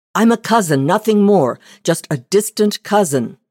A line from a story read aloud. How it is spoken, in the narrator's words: the man cried, cringing